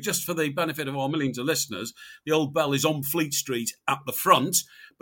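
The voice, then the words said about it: Slightly croaky voice. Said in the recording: “My voice is getting a bit croaky.”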